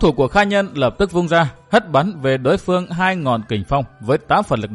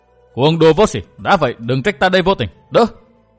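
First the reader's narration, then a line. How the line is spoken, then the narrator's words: Furious shout. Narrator (Vietnamese): làm cho Kha Nhân bừng bừng lửa giận, chàng quát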